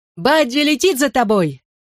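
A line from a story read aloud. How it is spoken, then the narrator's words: Yelled. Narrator (Russian): Заорал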